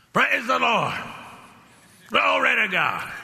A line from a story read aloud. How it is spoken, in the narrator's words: he'd just holler out